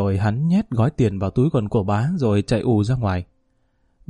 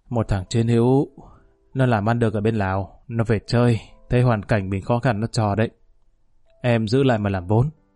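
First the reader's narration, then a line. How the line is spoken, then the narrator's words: Slurred drawl. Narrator (Vietnamese): Bá nói với giọng lè nhè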